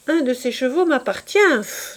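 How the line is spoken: Exclaiming. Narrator (French): s'écria-t-il

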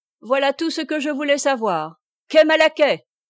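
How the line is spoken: Shouted with fiendish mockery. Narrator (French): cria Corentin au cocher en mettant d'infernales railleries dans son accent

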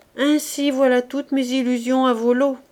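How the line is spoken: Deep sighing. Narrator (French): disait Fabrice en soupirant profondément

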